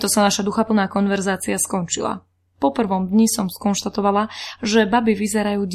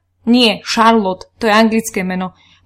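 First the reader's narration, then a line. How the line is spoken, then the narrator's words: Angry. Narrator (Slovak): povedala som mu to nahnevane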